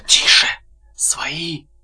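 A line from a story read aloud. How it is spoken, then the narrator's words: Whisper. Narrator (Russian): шепотом сказал Егоров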